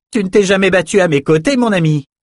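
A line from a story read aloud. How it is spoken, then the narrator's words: Shouting over din. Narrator (French): cria Elsa pour couvrir le vacarme des attaquants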